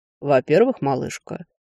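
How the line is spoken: Calm. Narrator (Russian): спокойно продолжил он

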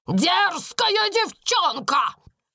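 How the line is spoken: Shout. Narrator (Russian): крикнула она

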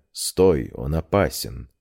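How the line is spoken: Whispered. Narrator (Russian): Амира, который шепнул мне

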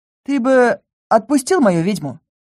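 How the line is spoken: Calm advice. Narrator (Russian): спокойно посоветовал Лис

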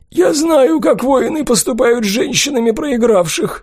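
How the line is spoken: Sobbing. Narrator (Russian): вновь всхлипнула гоблинша

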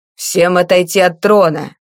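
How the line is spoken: Barked command. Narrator (Russian): рявкнул усатый страж

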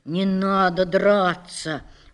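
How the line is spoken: Soft voice. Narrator (Russian): уже мягко сказал он

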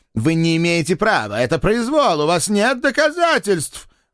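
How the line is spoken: Loud desperate shouting. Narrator (Russian): громко закричал профессор в надежде доораться до уходящей публики

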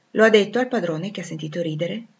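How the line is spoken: Plain question. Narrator (Italian): mi chiese

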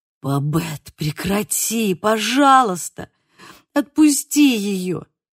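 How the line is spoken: Moaning plea. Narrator (Russian): стонал Симон

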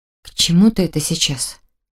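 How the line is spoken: Almost frightened question. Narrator (Russian): Почти испуганно спросила я

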